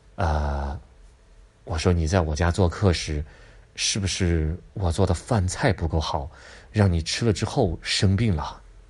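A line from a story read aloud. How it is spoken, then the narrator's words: Gentle guilty question. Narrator (Chinese): 月光很内疚啊，轻声的问道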